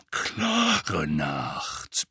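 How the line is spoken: Grumbling. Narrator (German): brummte

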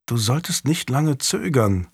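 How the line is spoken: Quiet urging. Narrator (German): drängte leise

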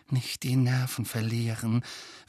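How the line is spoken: Urgent whisper. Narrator (German): wisperte Hermine Harry und Ron eindringlich zu

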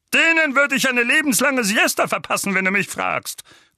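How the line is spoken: Growl. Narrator (German): knurrte Onkel Vernon

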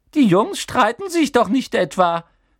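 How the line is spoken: Squeak. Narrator (German): quiekte

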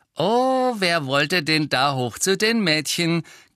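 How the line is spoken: Cheerful giggling. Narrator (German): kicherten sie fröhlich

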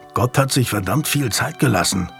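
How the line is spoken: Growling. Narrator (German): knurrte Daniel

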